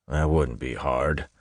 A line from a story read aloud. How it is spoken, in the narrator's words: one of the men grumbled